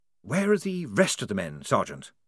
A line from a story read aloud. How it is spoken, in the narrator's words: whispered de Word